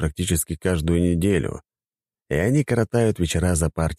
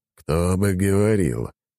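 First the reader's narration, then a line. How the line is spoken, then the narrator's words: Snorted reply. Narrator (Russian): хмыкнул Дориан в ответ на мои мысли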